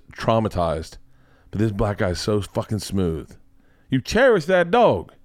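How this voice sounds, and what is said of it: Imitates another person's voice. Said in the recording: “doing his voice, doing an impression of”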